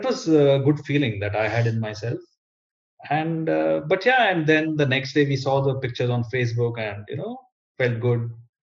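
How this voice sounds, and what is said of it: Strong foreign accent. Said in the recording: “you both have a very strong accent, which I love ... I have the Italian accent on the right side and then the Indian accent on the left side”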